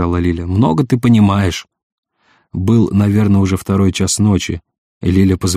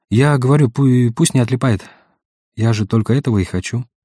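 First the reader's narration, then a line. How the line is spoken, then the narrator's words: Sighing. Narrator (Russian): вздохнула Лиля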